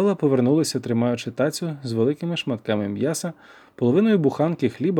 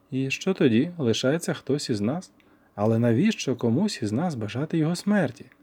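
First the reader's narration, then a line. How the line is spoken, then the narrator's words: Sighing. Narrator (Ukrainian): Я зітхнув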